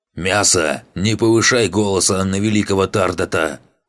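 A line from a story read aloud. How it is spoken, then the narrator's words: Barking from humiliated position. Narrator (Russian): Из своего униженного положения ухитрился рявкнуть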